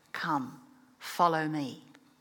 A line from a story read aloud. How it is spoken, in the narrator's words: Not with their ears, as one usually hears, gently massaged their hearts and said